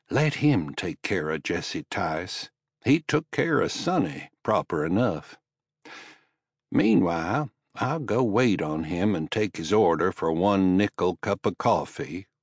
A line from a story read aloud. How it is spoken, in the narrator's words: Alma said